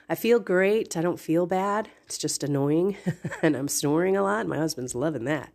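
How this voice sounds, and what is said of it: Stuffy, congested nasal voice. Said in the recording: “Sorry for my stuffy nose. I've got a little bit of a cold going on here.”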